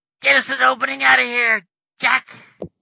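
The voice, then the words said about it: Squeaky character voice. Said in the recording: “squeaky voice”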